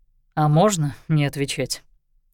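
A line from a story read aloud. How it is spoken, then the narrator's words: Snorting remark. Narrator (Russian): хмыкнул Лещинский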